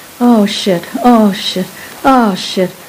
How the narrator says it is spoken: I could hear him moaning

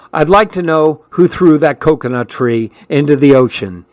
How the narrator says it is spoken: he said angrily

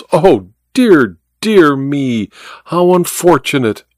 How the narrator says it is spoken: cried Milverton

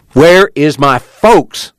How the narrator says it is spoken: Joad spoke angrily

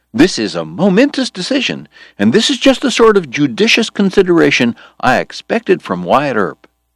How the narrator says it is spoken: George cried

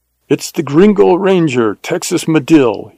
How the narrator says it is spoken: shouted in Spanish

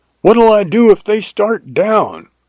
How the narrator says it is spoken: I yelled after him

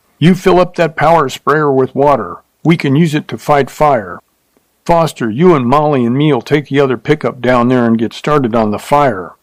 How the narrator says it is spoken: he shouted

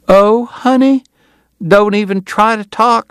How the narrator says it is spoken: she cried

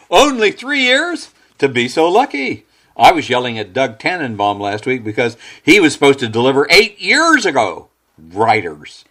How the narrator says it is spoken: Mort roared with laughter and said

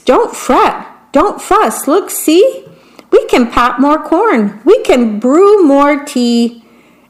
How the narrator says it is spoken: Mouse squeaks

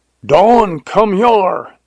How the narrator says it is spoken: yelled Jones

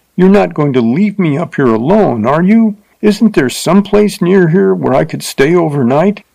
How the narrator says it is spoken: cried, forgetting her insulted dignity

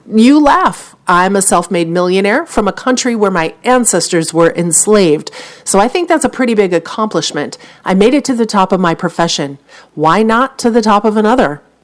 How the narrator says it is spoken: Lemon went on

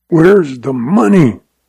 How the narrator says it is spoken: rasped Lem Craig

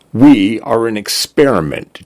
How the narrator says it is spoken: Jay said

